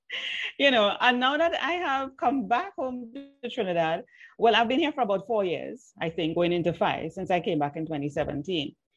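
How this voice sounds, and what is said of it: Trinidadian accent. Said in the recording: “my Trini accent ... Some people still hear an accent when I speak”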